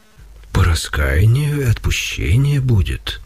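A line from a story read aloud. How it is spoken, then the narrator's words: Gentle, affectionate. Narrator (Russian): ответил ласково Серафим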